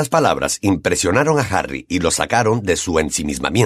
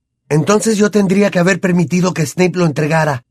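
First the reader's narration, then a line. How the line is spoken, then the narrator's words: Shouted. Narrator (Spanish): gritó Harry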